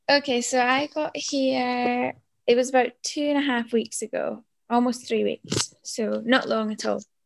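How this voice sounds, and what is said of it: Croaky, hoarse voice. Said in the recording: “I feel like I'm croaking now, I've lost my voice already.”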